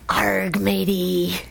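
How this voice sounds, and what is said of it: Pirate voice impression. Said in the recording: “your best pirate impression?”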